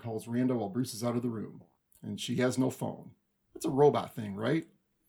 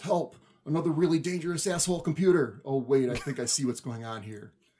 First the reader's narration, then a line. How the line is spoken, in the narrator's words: He yells